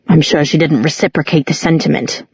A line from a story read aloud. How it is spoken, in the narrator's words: muttered Luke